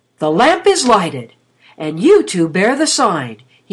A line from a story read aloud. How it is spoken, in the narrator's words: he exclaimed